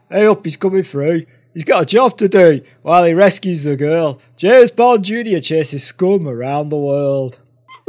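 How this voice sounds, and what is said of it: Put-on northern English accent. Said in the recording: “It does sound better with a northern accent.”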